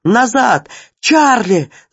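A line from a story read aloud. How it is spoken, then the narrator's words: Screaming, chin-deep in water. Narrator (Russian): закричала она, погружаясь в воду до подбородка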